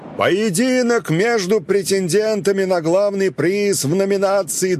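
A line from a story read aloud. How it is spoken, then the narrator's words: Shouted through cupped hands. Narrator (Russian): Маршал сложил руки рупором и прокричал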